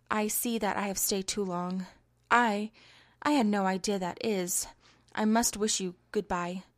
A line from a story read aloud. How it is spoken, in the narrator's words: stammered Branton